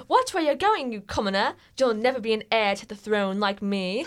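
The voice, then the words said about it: Put-on British accent. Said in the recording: “I should do a British accent. ... Just for when she's speaking.”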